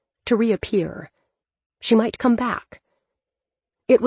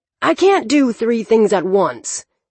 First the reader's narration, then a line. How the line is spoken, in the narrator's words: Toby snapped